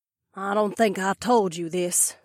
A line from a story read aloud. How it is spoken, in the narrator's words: the desperado muttered